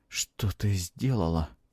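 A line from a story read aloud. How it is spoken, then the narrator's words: Soundless lip whisper. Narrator (Russian): прошептал он одними губами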